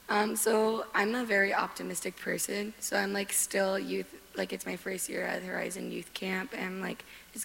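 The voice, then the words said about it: Cracky, strained voice. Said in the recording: “My voice is horrible. I'm very cracky.”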